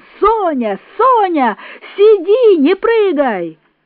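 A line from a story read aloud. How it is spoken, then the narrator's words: Desperate shouting. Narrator (Russian): Лев Николаевич кричал отчаянным голосом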